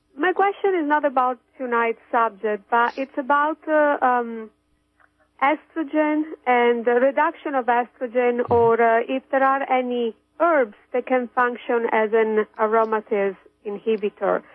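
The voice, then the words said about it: Foreign accent. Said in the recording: “That is my accent. I'm foreign as well.”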